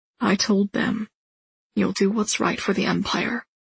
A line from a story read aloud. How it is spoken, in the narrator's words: he says, his voice husky